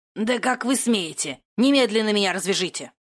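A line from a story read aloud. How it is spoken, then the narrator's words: Growling, struggling. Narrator (Russian): рычал извивавшийся на кровати император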